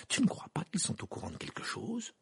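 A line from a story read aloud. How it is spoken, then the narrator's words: Murmured. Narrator (French): murmura Hermione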